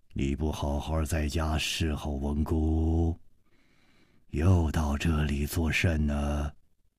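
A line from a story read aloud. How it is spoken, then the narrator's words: Deep commanding voice. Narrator (Chinese): 这个声音 低沉之中隐隐有微，一听那就知道是惯于发号施令的人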